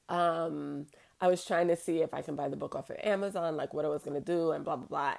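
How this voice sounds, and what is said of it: Slightly strained, off voice. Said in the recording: “I was screaming last night, so my voice is a little off”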